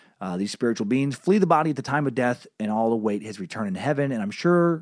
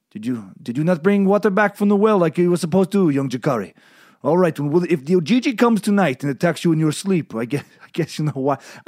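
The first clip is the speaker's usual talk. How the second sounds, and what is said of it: Put-on accent, sounds Russian. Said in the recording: “I don't know why that was Russian. I was going to do no accent, and then halfway through I decided to try and do an African accent ... I tried to do some tribal thing that came out Russian.”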